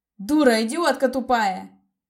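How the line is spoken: Furious shout, like wounded beast. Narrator (Russian): закричал ей вдогонку разъяренный Дэймон, словно раненый зверь, пойманный в ловушку

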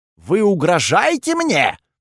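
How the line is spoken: Shouting. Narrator (Russian): закричал Курфюрст

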